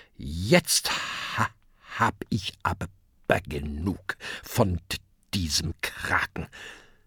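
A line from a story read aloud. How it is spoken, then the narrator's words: Grim mutter. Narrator (German): Grimmig murmelt er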